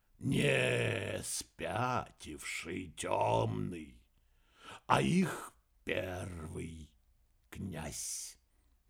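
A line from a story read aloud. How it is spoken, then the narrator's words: Slow, reluctant. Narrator (Russian): Медленно, словно нехотя, ответил Винсент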